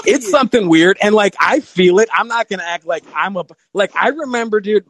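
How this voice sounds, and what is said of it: Chicago accent. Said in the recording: “hear it in your voice, man. You have a Chicago accent.”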